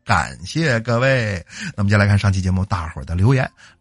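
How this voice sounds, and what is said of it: Northeastern Chinese accent. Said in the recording (Chinese): “这就是乡音...我看你就是个东北党。也不知道其他地区的朋友听我这口音听的习不习惯啊”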